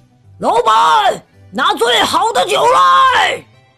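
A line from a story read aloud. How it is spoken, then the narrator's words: Bold question. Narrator (Chinese): 玛丽露大胆的问了一句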